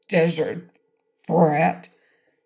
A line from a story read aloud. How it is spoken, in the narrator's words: said Uncle Fred thickly